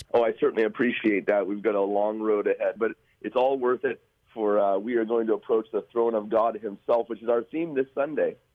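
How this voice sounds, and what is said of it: Voice slightly off from a cold. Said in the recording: “my voice is a little bit off. i I've got a Christmas cold.”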